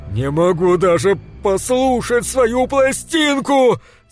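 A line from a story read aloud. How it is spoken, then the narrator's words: Loud. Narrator (Russian): сказал громко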